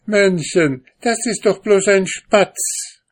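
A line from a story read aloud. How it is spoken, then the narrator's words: Woman laughing loudly, calling. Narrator (German): die Frau lachte laut und rief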